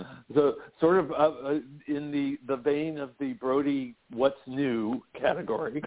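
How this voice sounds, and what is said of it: Usual voice. Nothing is said of it.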